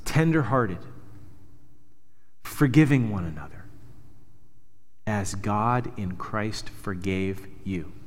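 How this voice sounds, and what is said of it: Slow, deliberate reading. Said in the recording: “read this slowly.”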